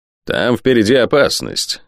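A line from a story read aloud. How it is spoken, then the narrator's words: Grim announcement. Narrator (Russian): мрачно объявил лорд Спенсер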